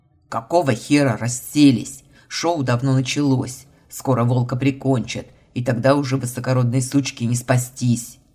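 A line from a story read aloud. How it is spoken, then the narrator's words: Growl. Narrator (Russian): рыкнул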